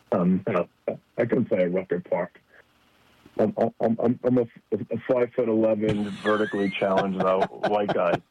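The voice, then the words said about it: New York Long Island accent. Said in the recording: “From your accent, I'm going to guess maybe a little Rucker Park action ... I stayed on the South Shore of Long Island where I grew up, but I do have a little bit of an accent to say the least”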